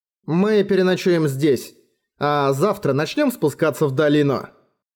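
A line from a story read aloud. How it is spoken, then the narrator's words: Plain. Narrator (Russian): сказал Бром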